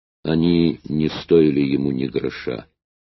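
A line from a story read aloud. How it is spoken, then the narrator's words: Grim. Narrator (Russian): Камердинер мрачно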